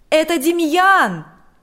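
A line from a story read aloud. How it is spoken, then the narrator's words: Shouted. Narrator (Russian): закричал он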